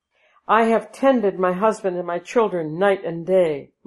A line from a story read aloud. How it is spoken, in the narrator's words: Madi cried, becoming more and more distracted